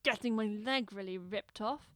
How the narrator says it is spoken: growls at the pain

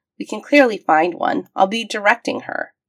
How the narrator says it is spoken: McKay said sharply

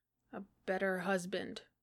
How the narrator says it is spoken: Johnny muttered

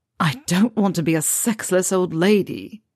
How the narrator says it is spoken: Draco moaned

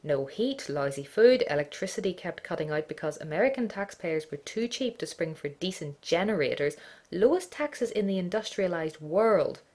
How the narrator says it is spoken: he added loudly

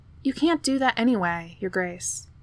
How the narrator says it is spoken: Captain Nile had sighed

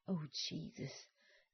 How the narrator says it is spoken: John gasped hoarsely

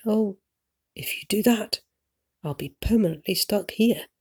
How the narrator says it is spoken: Hildy says in a slightly panicked voice

